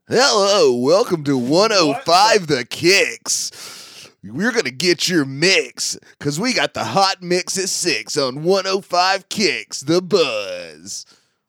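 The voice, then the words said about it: Exaggerated radio DJ voice. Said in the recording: “give me your best radio DJ voice”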